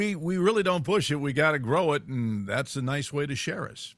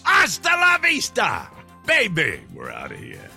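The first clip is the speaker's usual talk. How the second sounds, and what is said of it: Very loud shouted catchphrase. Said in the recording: “in a very loud voice”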